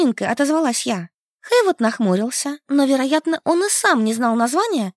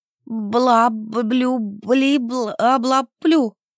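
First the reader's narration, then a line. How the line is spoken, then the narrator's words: Trembling voice. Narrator (Russian): Дрожащим голосом отозвалась я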